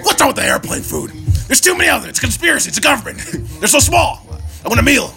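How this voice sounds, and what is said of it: Imitates another person's voice. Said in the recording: “Do an Alex Jones impression, but do like a Seinfeld bit. ... That was pretty good, though.”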